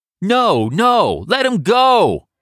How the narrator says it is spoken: others in Canal Street's white crowd scream back

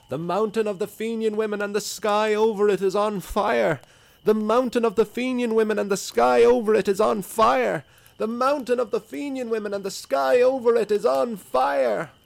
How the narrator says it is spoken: cries

